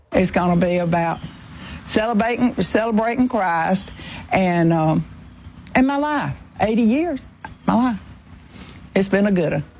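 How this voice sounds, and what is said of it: Strong Georgia Southern accent. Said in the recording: “She has perfect George accent, by the way. ... Just perfect.”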